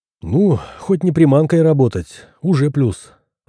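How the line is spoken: Sighing. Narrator (Russian): вздохнул

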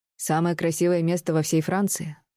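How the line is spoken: Solemn policeman. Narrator (Russian): торжественно сказал полицейский

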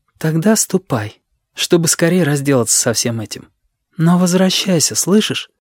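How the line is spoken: Soft speech. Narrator (Russian): мягко произнесла

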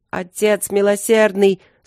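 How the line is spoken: Desperate shout. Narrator (Russian): закричал с отчаянием Ровент

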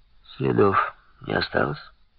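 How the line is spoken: Quiet question. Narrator (Russian): Так же тихо осведомился Робер

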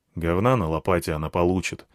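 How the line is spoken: Grumbled. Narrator (Russian): буркнул я

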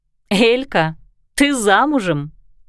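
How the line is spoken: Laughing. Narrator (Russian): рассмеялась Кристина

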